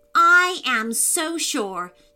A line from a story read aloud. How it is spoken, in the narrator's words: Jojo said loudly, clenching her little fists in anticipation